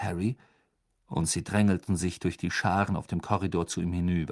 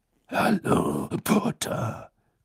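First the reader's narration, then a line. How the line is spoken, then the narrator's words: Growling. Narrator (German): knurrte Moody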